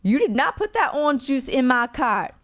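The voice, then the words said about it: Poor impression of a shopper. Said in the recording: “that was a horrible impression.”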